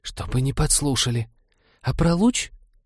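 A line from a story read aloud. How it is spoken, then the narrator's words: Hiss turning to rapid patter. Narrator (Russian): Механик все же сбилась из заговорщицкого шипения на привычную скороговорку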